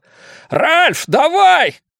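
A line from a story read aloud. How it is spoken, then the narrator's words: Shouted. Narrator (Russian): крикнул он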